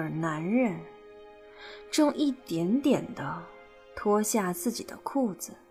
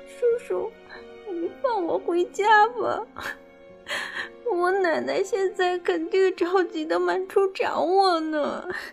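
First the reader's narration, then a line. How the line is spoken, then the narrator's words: Crying, pleading girl. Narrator (Chinese): 女孩 一边哭一边祈求着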